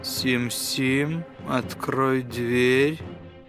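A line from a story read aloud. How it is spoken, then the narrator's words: Quiet. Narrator (Russian): тихо произнес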